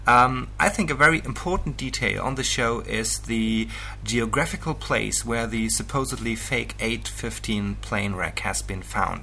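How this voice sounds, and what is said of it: German accent. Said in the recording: “from Germany with yet another funny accent”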